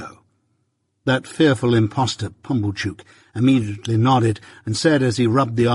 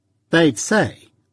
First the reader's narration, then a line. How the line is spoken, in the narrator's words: returned curtly